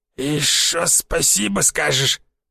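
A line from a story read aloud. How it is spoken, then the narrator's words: Creaky rasp. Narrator (Russian): проскрипел он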